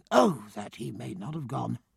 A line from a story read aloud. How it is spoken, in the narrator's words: murmuring